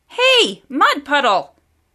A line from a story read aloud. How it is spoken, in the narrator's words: she yelled even louder